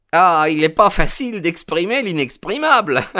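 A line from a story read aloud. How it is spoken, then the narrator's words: Laughing. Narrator (French): répondit-il en riant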